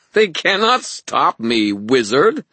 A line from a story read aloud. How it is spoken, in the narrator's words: Aurora said, that mad laughter still bubbling through her words